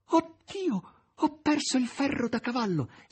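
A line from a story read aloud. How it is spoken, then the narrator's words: Desperate half-voiced exclamation. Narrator (Italian): Margherita, disperata, esclamò a mezza voce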